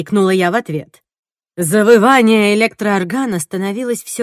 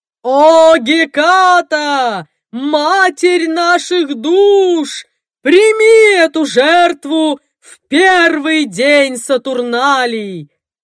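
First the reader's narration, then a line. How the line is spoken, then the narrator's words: Roaring. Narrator (Russian): Взревел Соумс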